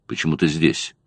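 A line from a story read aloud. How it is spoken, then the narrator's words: Muttered. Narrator (Russian): пробормотал он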